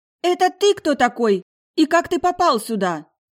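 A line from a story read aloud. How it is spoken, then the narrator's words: Indignant woman's shout. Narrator (Russian): прокричала возмущенно неожиданная гостья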